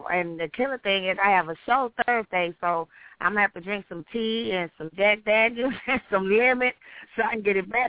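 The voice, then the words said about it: Hoarse, strained voice. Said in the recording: “I was screaming for her, so I'm a little hard ... my voice is terrible”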